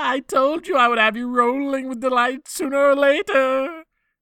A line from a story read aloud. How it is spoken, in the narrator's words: He cried out mockingly